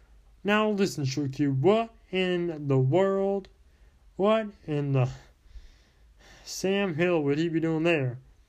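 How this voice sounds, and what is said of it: Southern American accent. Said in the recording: “A girl with a southern accent.”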